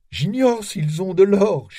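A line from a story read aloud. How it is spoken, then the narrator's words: Moaned. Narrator (French): gémit-il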